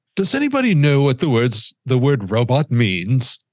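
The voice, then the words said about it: Imitates another person's voice. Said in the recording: “That's a terrible impression”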